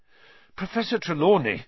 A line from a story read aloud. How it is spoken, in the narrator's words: Harry panted